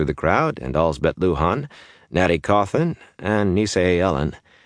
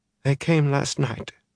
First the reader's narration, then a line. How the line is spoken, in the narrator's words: Isla said, mumbling because of her swollen face